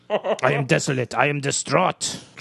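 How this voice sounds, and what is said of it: Put-on French accent. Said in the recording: “He does a French accent”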